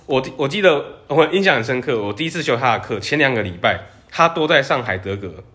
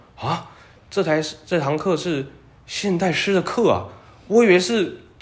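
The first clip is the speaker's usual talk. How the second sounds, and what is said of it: Heavy Mainland Chinese accent. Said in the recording (Chinese): “老师有那个很重的中国口音”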